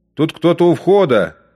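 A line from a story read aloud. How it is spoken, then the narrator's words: Shouting. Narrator (Russian): крикнул Штейнбреннер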